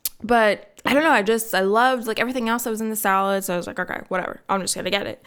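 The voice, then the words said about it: Slightly raspy voice. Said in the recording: “My voice is getting a little raspy.”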